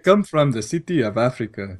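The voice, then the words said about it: Exaggerated fake African accent. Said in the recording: “this accent does not belong in any part of Africa, but it sounds weird enough”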